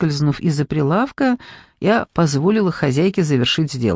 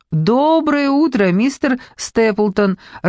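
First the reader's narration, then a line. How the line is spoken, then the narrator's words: Warm exclamation. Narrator (Russian): радушно воскликнула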